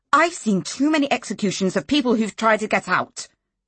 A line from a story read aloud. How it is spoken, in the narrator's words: she snapped